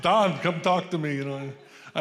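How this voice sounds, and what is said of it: Put-on Hispanic-sounding accent. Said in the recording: “I think I'm Hispanic. I got the wrong accent going here”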